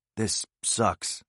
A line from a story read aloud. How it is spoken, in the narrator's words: he said